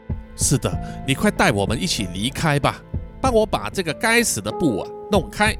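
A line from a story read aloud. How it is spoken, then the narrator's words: Breathless, panting. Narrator (Chinese): 太郎就喘着气说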